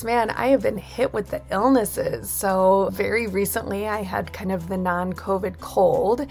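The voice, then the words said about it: Voice sounds sick from a cold. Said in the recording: “I don't know if you can hear it in my voice.”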